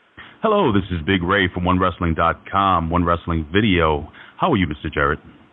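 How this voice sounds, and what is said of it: Deep smooth radio voice. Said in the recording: “You have got a radio voice”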